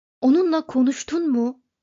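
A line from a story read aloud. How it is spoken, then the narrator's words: Shouting. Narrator (Turkish): dedi Ford bağırarak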